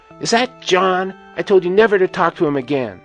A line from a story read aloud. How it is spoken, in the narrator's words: screaming out